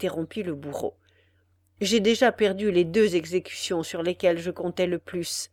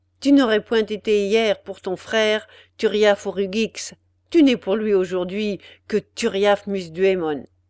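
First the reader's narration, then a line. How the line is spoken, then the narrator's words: Harsh. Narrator (French): ajouta-t-il durement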